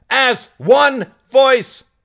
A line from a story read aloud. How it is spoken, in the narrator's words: shouted Mary